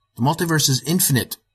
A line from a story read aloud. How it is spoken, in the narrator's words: I exclaimed